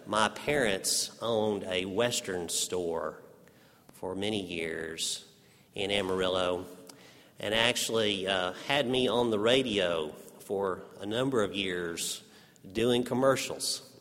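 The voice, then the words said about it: Texas accent. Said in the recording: “tease you for your Texas accent ... my Texas accent”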